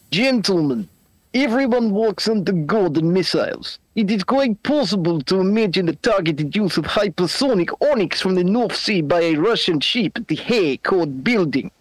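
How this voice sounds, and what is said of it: Put-on Russian accent. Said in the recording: “read this out in your best Russian accent”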